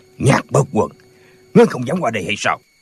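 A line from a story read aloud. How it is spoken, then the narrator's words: Shout. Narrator (Vietnamese): Tả Lãnh Thiền quát lên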